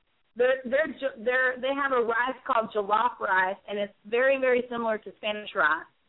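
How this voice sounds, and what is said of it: Southern American accent. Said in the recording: “I love that accent. ... You're hearing that southern accent? ... I heard it. I did hear it.”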